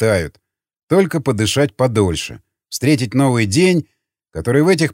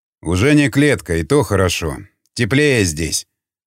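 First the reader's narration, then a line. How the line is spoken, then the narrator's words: Varangian's snort. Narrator (Russian): хмыкнул варяг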